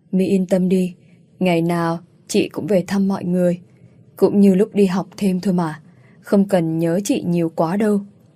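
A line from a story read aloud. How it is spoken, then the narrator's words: Suppressing a sigh. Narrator (Vietnamese): Tôi cố ngăn tiếng thở dài, đáp lại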